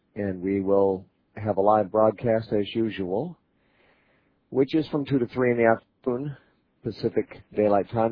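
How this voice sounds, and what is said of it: Slightly hoarse voice. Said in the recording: “I'm a little bit hoarse today for some reason. I think it's my allergies”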